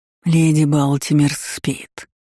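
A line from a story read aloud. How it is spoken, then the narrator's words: Plain. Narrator (Russian): ответил змей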